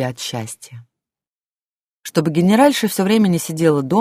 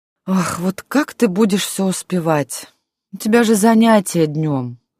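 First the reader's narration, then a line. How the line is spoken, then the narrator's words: Sighing. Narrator (Russian): вздохнула Варвара Леонтьевна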